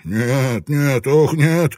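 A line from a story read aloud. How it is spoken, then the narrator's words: Moaning. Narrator (Russian): это простонал Ван Нек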